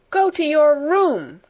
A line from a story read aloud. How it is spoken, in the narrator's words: cried Miss Minchin breathlessly